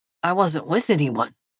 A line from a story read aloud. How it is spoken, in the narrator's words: he muttered